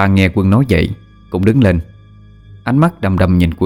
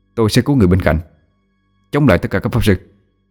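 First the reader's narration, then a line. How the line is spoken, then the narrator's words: Cold reply. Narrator (Vietnamese): Quân ánh mắt lạnh lùng đáp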